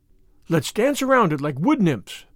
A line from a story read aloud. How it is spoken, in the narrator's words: cried Anne